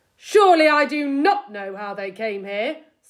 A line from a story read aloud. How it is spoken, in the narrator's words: snapped Mr